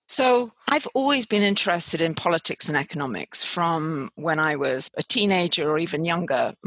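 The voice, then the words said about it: British accent. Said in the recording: “I obviously have a British accent”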